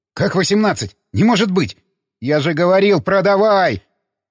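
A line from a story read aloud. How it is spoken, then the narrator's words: Furious yelling. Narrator (Russian): Заорал Гоша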